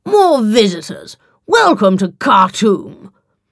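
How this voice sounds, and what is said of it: English accent. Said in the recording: “in a far more English accent than she'd expected”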